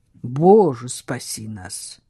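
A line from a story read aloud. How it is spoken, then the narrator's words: Muttering. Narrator (Russian): пробормотал Самюэль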